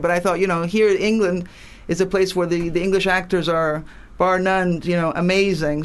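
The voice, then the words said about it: American accent. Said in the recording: “my accent is American ... you don't sound like you're totally from Italy”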